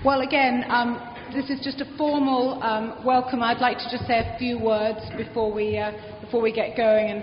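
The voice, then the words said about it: British accent. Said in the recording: “my British accent remains pretty strong.”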